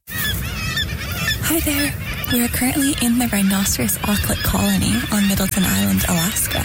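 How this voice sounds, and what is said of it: Whispering. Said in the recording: “we're whispering because we have to be really quiet”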